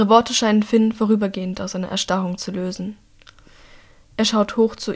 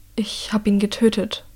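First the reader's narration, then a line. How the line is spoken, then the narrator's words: Trembling voice. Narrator (German): sagt er mit zitternder Stimme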